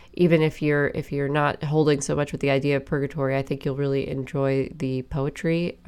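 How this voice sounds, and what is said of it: Congested, stuffed-up voice. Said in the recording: “I'm so stuffed up. This can't be that enjoyable for you to listen to”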